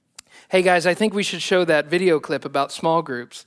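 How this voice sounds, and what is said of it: Put-on California accent. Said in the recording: “I changed to like a California accent”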